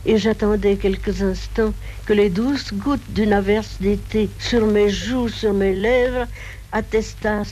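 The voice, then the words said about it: Speaks with a distinctive accent. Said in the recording (French): “qui parlait avec cet accent”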